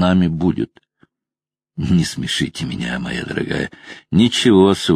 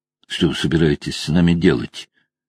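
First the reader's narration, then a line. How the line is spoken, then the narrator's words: Strained forced calm. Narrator (Russian): Ирен Чариал старалась говорить спокойно, но все равно в ее голосе чувствовалось напряжение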